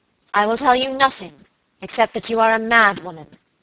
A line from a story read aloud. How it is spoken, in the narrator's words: answered Lady Audley in a cold, hard voice